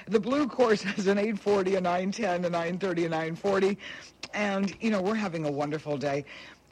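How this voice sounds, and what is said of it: Strained, fading voice. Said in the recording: “I'm just losing my voice here”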